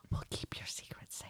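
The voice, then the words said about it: Whispering. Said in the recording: “Why are you whispering again?”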